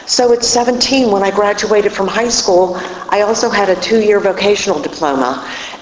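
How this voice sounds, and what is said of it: Pittsburgh accent. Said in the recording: “if you can't tell by the accent, I'm from Pittsburgh”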